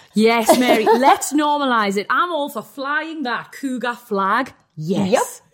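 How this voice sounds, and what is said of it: Strong British accent. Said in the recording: “My accent's really strong. ... even us Brits”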